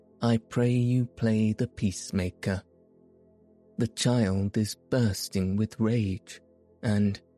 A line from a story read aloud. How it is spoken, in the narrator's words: she said in that gentle, sweet, musical voice of hers